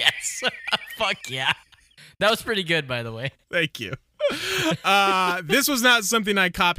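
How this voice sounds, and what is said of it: Usual voice. Nothing is said of it.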